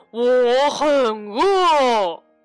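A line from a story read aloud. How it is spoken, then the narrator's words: Bear's roar. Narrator (Chinese): 熊 他吼道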